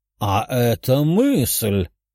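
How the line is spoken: Loud laughter. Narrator (Russian): Император расхохотался

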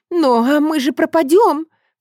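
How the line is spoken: Sobbing. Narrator (Russian): всхлипывает Найденова

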